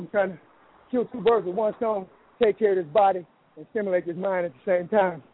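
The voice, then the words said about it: Slightly out of breath. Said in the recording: “I'm a little out of breath ... I'm riding my bike”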